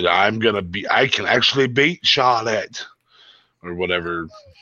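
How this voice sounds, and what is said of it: Poor imitation of another person's voice. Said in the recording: “my really shitty Nikki impersonation ... A very shitty one ... It was bad”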